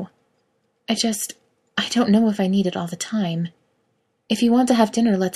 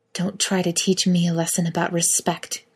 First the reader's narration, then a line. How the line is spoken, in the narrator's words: Kate hisses, her face changing in a matter of seconds from gentle but frustrated to pure anger